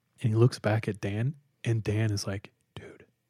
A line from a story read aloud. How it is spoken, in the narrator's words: he whispers